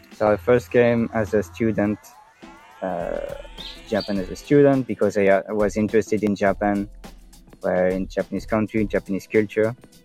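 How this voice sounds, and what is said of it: Mild French-speaking Belgian accent. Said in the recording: “The French accent. ... Well, French accent. ... So I'm from the French-speaking part of Belgium. Although I don't have a very strong Belgian accent.”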